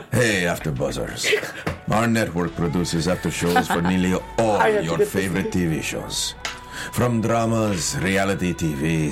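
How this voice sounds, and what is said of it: Telenovela-style put-on accent. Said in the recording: “An accent ... Telenovela.”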